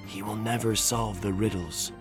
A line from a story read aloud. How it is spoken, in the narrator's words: I could hear them whisper